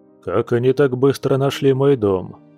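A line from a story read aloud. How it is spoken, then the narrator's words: Gloomy bear's question. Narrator (Russian): мрачно спросил медведь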